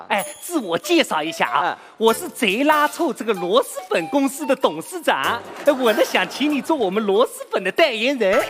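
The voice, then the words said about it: Put-on regional Chinese accent. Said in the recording (Chinese): “你这个口音跟产螺蛳粉那个地方好像不太搭嘎”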